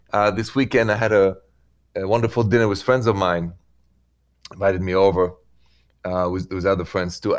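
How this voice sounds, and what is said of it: French accent. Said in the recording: “My accent is French.”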